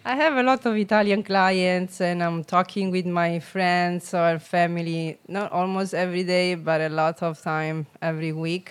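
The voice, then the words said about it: Non-native accented English. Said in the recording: “I still have a broken English, though. ... and the accent.”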